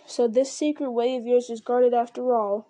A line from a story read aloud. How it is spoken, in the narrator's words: he growled